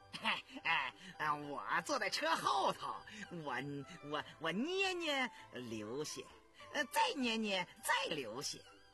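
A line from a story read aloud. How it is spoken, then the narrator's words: Laughing. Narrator (Chinese): 狗儿笑着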